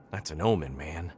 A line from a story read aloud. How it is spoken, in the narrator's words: he whispered